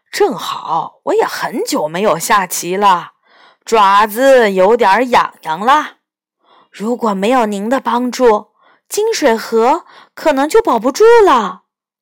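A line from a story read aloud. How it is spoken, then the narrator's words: Laughing. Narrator (Chinese): 龙笑着说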